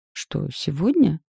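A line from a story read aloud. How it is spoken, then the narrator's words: Confused question. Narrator (Russian): растерянно переспросила я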